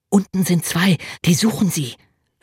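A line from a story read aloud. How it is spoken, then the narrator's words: Whispered. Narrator (German): flüsterte er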